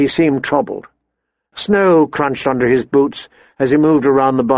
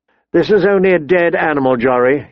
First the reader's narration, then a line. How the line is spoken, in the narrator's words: he said